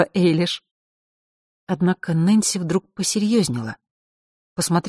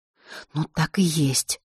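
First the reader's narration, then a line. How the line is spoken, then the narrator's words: Woman's whisper. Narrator (Russian): прошептала Нэнси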